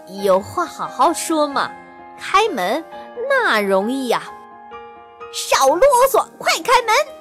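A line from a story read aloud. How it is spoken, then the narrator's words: Smiling. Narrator (Chinese): 一半笑眯眯地说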